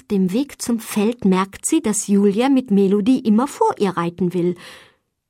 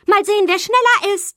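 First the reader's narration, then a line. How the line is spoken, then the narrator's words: Challenging call. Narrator (German): ruft sie Lina herausfordernd zu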